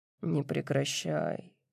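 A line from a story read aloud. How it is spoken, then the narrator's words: Muttering. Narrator (Russian): бормочет он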